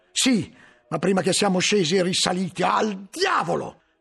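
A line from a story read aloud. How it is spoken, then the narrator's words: Shouted. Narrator (Italian): gridò poi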